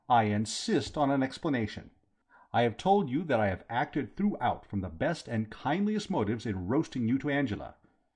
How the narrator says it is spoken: said firmly

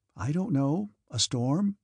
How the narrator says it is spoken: she ventured timidly, afraid of being wrong

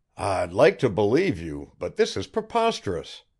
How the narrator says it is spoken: Griffin cried

